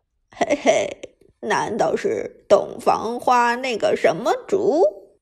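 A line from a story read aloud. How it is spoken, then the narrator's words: Mischievous snicker. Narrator (Chinese): 陈天野坏笑一声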